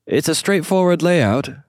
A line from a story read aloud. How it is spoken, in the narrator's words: the concierge called out behind them in an attempt to be helpful